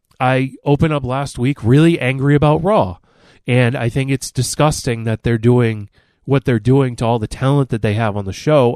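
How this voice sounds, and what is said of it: Sick, under-the-weather voice. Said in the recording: “can hear in my voice, I'm a little under the weather”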